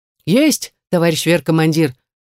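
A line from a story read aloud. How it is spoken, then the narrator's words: Reply from below. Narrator (Russian): отозвались снизу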